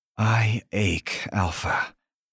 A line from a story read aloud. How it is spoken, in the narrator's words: purr back